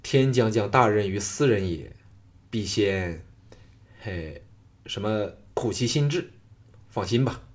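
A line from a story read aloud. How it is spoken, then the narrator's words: Calm, indifferent. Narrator (Chinese): 项少龙淡淡的说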